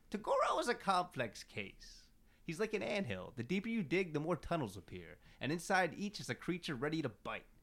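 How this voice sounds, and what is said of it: Impersonates a fictional character's voice. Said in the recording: “your Kuenma impersonation ... That was pretty good”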